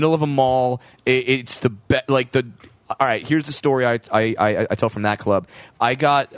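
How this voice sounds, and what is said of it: Usual voice. Nothing is said of it.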